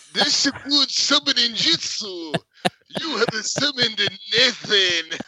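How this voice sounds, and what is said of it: Put-on Japanese accent. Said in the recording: “You still have a very good Japanese accent.”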